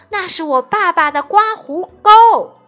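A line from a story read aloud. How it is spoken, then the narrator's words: Loud shout. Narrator (Chinese): 艾伦大喊一声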